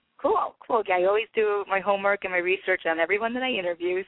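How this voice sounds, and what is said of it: Voice sounds slightly sick. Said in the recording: “my voice is a little, I must be coming down with something ... so that your voice gets better”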